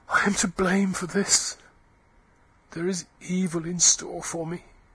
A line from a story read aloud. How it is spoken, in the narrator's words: she said huskily